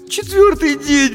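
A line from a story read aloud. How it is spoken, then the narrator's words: Sobbing. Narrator (Russian): всхлипнула Дженни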